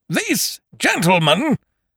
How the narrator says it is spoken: boomed Ukridge

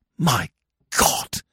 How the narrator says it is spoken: he whispered

